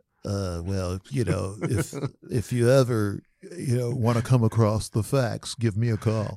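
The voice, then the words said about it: Nerdy guy character voice. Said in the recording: “Can you do that voice again of our listeners? ... Is that Donald Duck? ... It's my nerdy white guy.”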